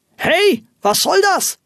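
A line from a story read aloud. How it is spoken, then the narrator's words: Astonished angry shout. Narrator (German): rief ein erstaunter Rufus Hornox erzürnt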